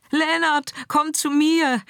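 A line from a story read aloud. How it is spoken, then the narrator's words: Screamed. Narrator (German): schrie Scarlett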